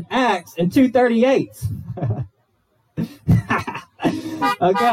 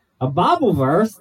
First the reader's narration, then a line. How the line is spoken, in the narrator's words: the thief replied